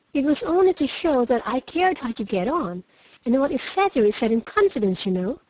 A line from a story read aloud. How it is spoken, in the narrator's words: cried Meg, much alarmed at the thought of what might follow from her careless speech